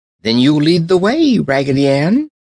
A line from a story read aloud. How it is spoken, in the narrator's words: cried the French dolly